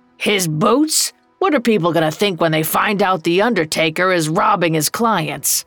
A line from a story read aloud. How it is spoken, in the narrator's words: Old Joe growled